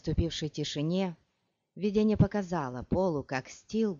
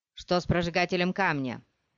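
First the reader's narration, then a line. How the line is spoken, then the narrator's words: Shouted. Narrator (Russian): закричал кто-то из вновь прибывших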